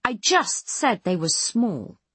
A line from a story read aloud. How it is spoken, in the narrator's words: Foss snaps, all out of patience